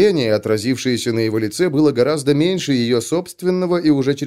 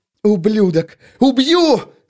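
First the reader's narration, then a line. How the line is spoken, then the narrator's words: Furious yelling. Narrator (Russian): завопила она ему в лицо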